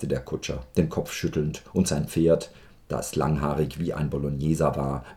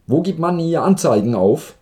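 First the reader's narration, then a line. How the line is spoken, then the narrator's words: Calling out. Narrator (German): rief Kowaljow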